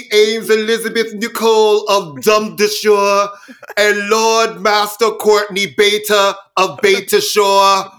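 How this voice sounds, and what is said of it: Put-on accent, hard to sustain. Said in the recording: “we're going to stop this accent because neither one of us can keep it. Up.”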